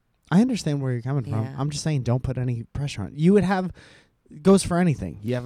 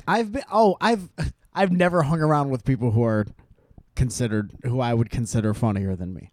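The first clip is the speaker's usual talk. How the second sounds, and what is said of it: Sarcastic delivery. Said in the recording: “I was saying that sarcastically. It's a sarcastic.”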